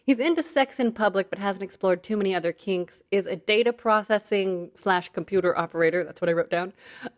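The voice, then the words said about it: Announcer-style presenting voice. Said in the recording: “There's my announcer voice”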